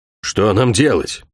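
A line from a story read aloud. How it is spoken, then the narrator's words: Gloomy question. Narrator (Russian): мрачно спросил Алин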